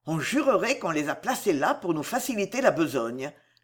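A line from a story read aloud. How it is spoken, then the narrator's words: Grumbled. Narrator (French): grommela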